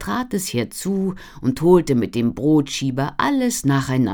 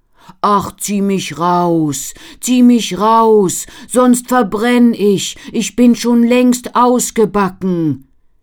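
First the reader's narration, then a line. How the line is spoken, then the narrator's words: Bread calling out. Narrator (German): Das Brot rief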